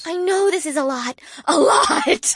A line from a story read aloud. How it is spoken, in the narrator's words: shrieked